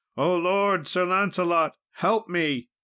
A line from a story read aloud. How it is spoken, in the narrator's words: cried aloud